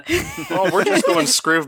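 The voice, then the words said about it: Minnesota accent drifting Irish. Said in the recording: “Could have had Minnesota ... by way of Fargo ... that got a little bit Irish randomly”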